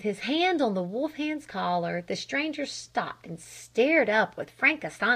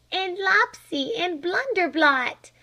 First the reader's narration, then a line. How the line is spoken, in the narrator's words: cried Flame